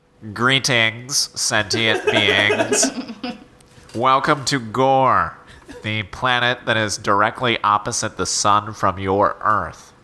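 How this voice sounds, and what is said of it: Robotic giant spider voice. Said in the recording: “in the style of a giant spider with a robot voice box ... robot voice”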